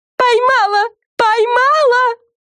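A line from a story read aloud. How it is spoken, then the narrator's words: Shouting. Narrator (Russian): закричала Френ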